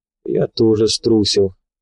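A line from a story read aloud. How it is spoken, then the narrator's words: Sigh. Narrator (Russian): вздохнул Николай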